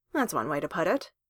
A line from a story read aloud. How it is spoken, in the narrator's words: Clint said dryly